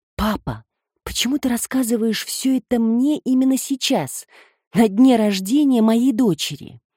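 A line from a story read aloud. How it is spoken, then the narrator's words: Whisper. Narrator (Russian): прошептала Петрина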